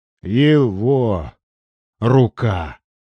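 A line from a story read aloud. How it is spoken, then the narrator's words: Sudden hoarse, strained voice. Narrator (Russian): вдруг осипшим голосом выдавил третий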